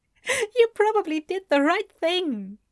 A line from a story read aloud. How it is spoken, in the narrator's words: Ezra managed to say, still chuckling a bit